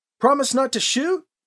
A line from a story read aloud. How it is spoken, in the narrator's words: Alibi shouted the question back down the trail